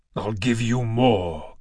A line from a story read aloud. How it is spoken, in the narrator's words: Kratos snarled